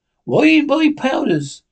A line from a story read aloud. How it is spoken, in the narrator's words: cried Long John